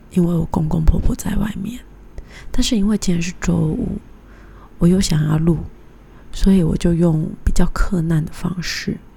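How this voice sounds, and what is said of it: Speaking quietly, hushed voice. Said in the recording (Chinese): “为什么我要那么小声呢？”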